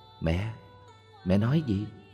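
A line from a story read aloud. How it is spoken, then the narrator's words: Soft close question. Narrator (Vietnamese): Con bà ghé sát hỏi khẽ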